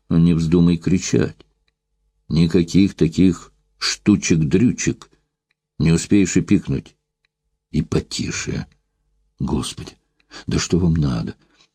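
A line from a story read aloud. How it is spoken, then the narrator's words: Forced low whisper. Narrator (Russian): Невольно понижая голос до шепота, заставила себя спросить Евдокия Савельевна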